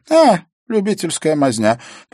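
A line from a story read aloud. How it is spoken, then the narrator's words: Contemptuous snort. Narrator (Russian): презрительно фыркнула Эвана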